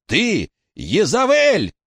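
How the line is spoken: Shouting. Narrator (Russian): крикнул Уэйн

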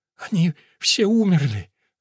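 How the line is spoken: Sobbing. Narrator (Russian): Лола опять зарыдала

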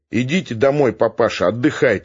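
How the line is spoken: Plain. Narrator (Russian): сказал один напоследок

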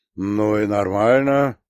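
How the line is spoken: Genial booming voice. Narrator (Russian): благодушно прогудел Смирнов

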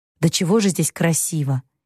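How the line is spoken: Quiet. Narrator (Russian): тихо проговорил Лори

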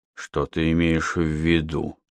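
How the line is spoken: Strained, forced words. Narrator (Russian): С трудом выдавил я из себя

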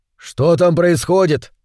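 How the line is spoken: Shout over shoulder. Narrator (Russian): крикнул он через плечо

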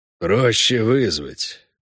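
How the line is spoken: Gloomy. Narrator (Russian): мрачно сказал Хорн

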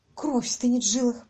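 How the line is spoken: Whispered, unknown speaker. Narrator (Russian): прошептал кто-то

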